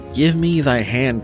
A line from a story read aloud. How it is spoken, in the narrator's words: cried he